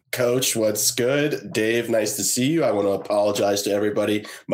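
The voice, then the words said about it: Hoarse voice. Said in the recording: “My voice is going to be a bit hoarse ... The voice hoarse. ... he was very worried about his voice today”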